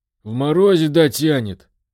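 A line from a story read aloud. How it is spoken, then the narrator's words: Hoarse, to himself. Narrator (Russian): Прохрипел он больше для себя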